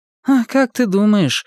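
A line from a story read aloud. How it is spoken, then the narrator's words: Sighing. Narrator (Russian): вздохнула Анетта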